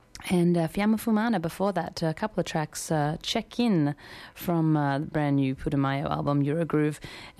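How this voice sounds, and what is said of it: Slightly hoarse, fading voice. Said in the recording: “I'm losing my voice a little.”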